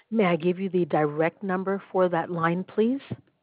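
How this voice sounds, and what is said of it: Polished, recording-like phone voice. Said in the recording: “You have the perfect phone voice ... I was just like, I'm going to have to wait for a beep. I swear to God, you have a perfect phone voice.”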